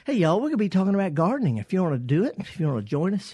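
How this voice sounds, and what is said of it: Thick Southern US accent. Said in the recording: “I've got a pretty thick Southern accent”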